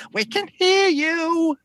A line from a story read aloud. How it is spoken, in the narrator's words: You can hear a cackling from above, and one of them says